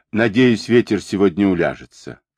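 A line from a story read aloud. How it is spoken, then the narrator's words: Plain. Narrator (Russian): сказала тетя Фанни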